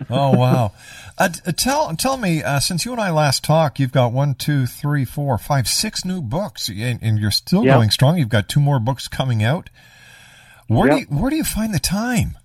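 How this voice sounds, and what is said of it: Congested voice. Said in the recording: “I've got a bit of a cold”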